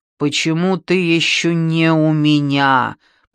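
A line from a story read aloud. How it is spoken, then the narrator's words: Growling reply. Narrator (Russian): прорычала та в ответ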